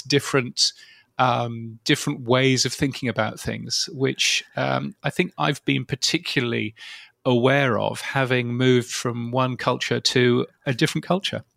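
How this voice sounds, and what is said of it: British accent. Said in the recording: “So at what point do Brits lose their British accent and turn into an Australian accent? Or once you have a British accent, it sticks with you forever?”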